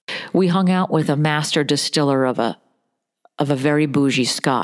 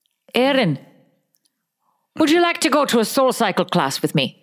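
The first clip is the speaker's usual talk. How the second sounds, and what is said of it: Put-on Irish-sounding accent. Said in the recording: “if you have a Scottish accent... That's not Scottish. That is not remotely... I think that's Irish.”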